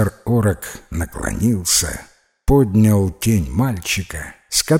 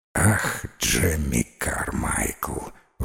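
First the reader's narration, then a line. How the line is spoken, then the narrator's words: Sighing. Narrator (Russian): вздохнул он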